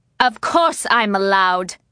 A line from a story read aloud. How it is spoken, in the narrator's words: he snapped